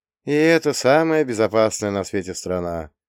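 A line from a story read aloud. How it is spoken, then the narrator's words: Sad sigh. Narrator (Russian): грустно вздохнул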